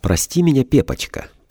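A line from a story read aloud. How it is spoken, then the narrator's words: Saccharine voice. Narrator (Russian): произнесла приторным голосом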